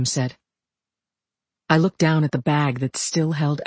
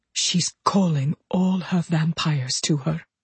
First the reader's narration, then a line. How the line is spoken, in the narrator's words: Damien whispered